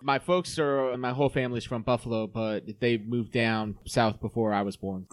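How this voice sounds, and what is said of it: Southern American accent. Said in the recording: “It doesn't really sound that great coming out with the Southern accent”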